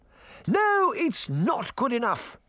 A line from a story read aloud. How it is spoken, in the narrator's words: the Queen shouted